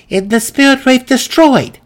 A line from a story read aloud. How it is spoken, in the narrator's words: Maya cried in sincere distress